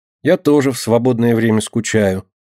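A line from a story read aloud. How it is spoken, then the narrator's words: Sighing. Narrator (Russian): вздохнула Динка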